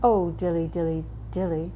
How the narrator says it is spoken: sighed Simpkin

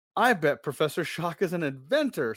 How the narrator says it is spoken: Stacy exclaims

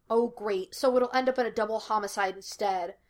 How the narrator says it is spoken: Laster snapped

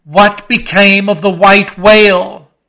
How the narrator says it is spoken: cried Ahab, who thus far had been impatiently listening

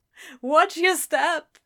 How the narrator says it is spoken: Crowley groaned, starting low and growing in intensity

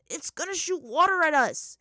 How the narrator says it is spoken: he shouted to Sokka

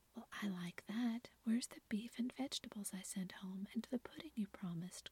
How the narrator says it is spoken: cried John

